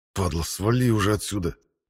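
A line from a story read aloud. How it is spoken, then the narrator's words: Pleading. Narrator (Russian): взмолился я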